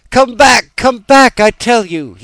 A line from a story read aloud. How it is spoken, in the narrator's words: cried, stamping his foot